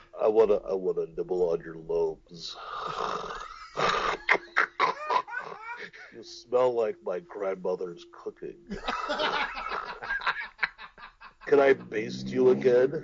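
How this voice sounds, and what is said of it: Whispered seductive character voice. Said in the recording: “Can you imagine Obesius? You know, just whispering sweet nothings into a girl's ear.”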